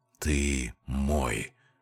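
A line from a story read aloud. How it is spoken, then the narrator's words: Whisper. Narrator (Russian): прошептал Джокер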